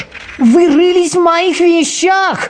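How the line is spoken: Shouted. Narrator (Russian): закричал он

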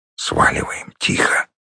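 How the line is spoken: Whispered reply. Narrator (Russian): прошептал в ответ леший

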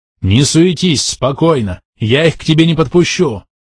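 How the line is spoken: Shout. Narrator (Russian): прокричал я

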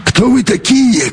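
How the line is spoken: Hoarse shout. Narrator (Russian): крикнул хрипун

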